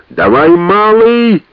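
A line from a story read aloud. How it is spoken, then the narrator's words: Loud yell. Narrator (Russian): заорал он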